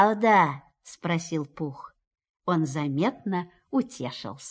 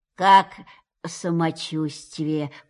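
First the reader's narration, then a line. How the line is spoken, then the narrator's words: Habitually gloomy question. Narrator (Russian): по обыкновению уныло спросил он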